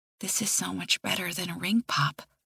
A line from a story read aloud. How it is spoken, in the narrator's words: I say quietly